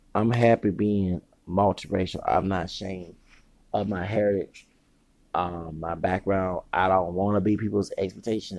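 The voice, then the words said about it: Strained, sick-sounding voice. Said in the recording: “I sound different because my voice, I've been screaming, yelling, hollering ... So I got sick.”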